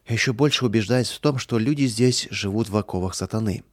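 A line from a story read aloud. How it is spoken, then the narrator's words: Regretful sigh. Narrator (Russian): с сожалением вздохнул Михаил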